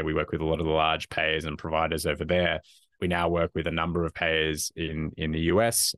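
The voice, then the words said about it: Australian accent. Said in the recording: “as probably can people could probably tell from my accent, originally from Australia”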